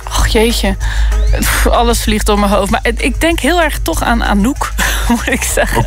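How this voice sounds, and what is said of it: Netherlands Dutch accent, hard G. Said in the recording (Dutch): “ik heb mijn accent veranderd niet ... Nederlander in België ... Die harde G”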